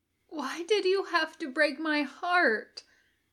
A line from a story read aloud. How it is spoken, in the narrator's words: Mitchell asks, brokenly, behind him